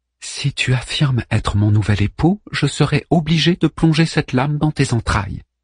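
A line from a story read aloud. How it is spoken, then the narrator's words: Woman declaring calmly. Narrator (French): déclara-t-elle d'une voix posée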